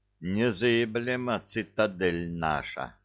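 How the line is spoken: Relieved sigh, gang boss. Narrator (Russian): облегченно вздохнул пахан

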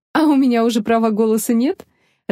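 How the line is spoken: Laughing. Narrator (Russian): рассмеялась Нелла

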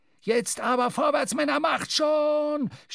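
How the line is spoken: Shouting, sputtering smoke. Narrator (German): schrie Stubb, wobei er blubbernd Rauchwolken ausstieß

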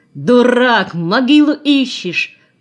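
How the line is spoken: Furious yelling. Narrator (Russian): орал в ярости

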